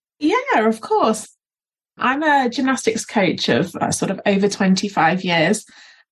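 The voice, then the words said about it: English accent. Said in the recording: “from England. ... From my accent.”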